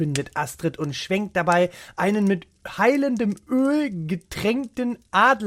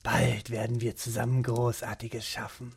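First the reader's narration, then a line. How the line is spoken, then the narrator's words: Whisper. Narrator (German): flüstert er dem Gerät zu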